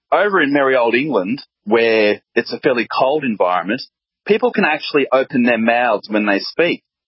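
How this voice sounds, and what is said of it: Australian accent. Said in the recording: “That is an amazing voice... that magnificent accent. I mean, it's kind of sort of related to the British accent, but it's not really.”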